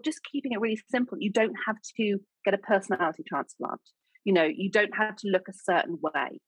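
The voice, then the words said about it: English accent. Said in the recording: “I sound like Julie Andrews... no one's really listening to my accent. Well, they do outside the UK”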